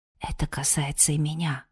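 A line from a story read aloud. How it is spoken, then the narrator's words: Whispered. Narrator (Russian): прошептал Алером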